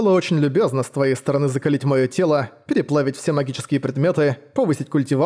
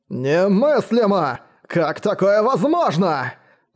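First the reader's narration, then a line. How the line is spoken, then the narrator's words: Shouting. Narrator (Russian): закричал Жадность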